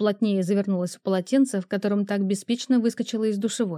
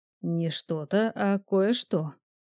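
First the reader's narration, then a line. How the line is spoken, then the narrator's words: Deep low voice. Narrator (Russian): глубоким низким голосом произнес он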